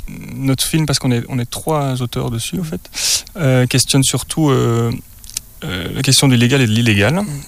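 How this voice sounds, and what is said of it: Belgian French accent. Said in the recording (French): “Vous avez un accent, vous êtes belge ? ... je viens du Namurois, et je pense qu'il est un peu moins marqué là-bas. Mais apparemment, il m'a trahi quand même.”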